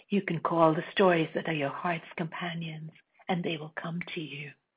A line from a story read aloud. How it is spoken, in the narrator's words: her voice dropped into a deeper register